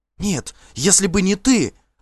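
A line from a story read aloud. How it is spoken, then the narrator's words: Desperate cry. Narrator (Russian): отчаянно вскрикнула она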